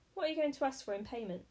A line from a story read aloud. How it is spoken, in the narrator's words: She chuckled